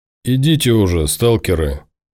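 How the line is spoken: Angry grumble. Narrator (Russian): сердито проворчал Тимур

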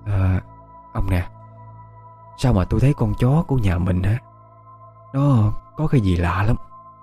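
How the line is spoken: Old woman whispering. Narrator (Vietnamese): Bà thì thào

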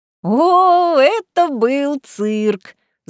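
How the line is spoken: Laughing. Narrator (Russian): засмеялась я

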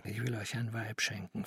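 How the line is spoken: Whisper. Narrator (German): flüsterte er

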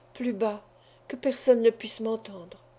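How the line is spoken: Murmured. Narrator (French): murmura Madame Torontal

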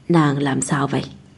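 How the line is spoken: Hoarse voice. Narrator (Vietnamese): giọng khàn khàn nói

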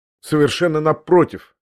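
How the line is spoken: Sharp interjection. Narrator (Russian): резко ввязался я опять

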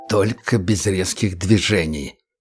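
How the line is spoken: Hissing. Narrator (Russian): прошипел кремлевец

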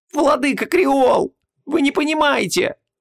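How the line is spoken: Desperate shriek. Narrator (Russian): отчаянно взвизгнул голос

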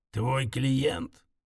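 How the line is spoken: Menacing creak. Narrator (Russian): Он угрожающе проскрипел

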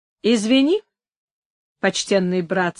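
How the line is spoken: Calm voice. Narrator (Russian): сказал Антонио спокойным голосом

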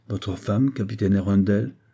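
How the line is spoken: Cold, measured, hint of surprise. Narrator (French): dit d'un ton froid et mesuré, mais où perçait l'étonnement

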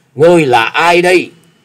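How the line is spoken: Terrified loud question. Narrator (Vietnamese): Gã Phiền Tăng thấy một luồng chưởng kình như sấm sét ập tới thì vô cùng kinh hãi lớn tiếng hỏi

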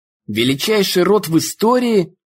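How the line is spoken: Yelling. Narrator (Russian): орала кузина Ингрид

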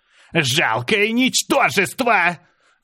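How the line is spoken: Angry scream. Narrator (Russian): гневно закричала она

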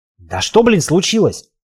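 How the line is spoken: Irritated barking. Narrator (Russian): рявкнул в ответ Славик, которого сержантские повадки Ивана начали безмерно раздражать

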